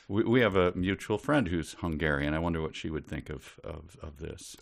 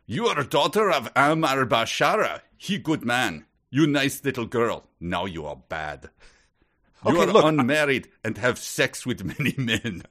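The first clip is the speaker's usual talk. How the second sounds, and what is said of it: Thick put-on Hungarian accent. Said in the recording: “my impression of Hungarian ... she spoke with a thick accent”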